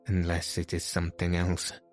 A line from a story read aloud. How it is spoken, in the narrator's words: added the Persian anxiously